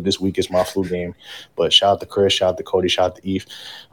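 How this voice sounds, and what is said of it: Rough, sick-sounding voice. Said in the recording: “apologize for the vocals. Unfortunately, COVID got me sounding like a Joe Budden mixtape from 2004”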